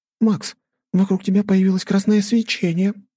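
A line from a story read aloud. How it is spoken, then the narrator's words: Surprised exclamation. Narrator (Russian): удивленно воскликнула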